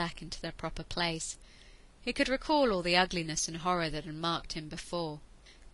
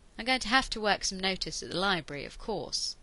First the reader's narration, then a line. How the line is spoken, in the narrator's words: he said in a conversational tone of voice